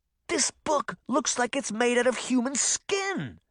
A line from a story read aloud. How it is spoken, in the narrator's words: he exclaimed